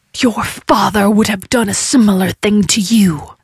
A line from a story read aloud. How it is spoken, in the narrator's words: the mouth hissed